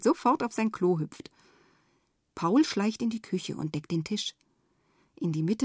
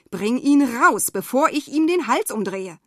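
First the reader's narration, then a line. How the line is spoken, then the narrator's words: Mother screaming. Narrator (German): schreit Mama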